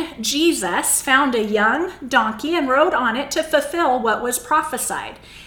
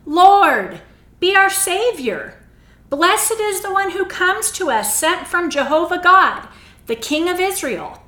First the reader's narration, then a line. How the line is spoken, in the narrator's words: Everyone was shouting